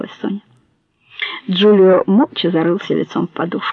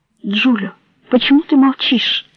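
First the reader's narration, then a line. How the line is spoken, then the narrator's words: Desperate pleading. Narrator (Russian): в отчаянии взмолилась Соня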